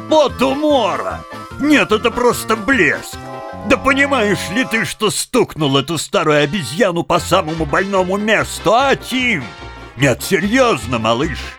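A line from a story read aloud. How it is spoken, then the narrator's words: Breathless laughing speech. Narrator (Russian): Задыхаясь от хохота, он еле выговорил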